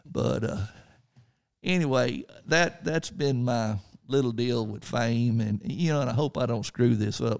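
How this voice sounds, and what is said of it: Slight country Texas accent. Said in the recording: “kind of made fun of the way I talked a little bit. I know I got a little bit of a country accent ... what part of Texas are you from, boy?”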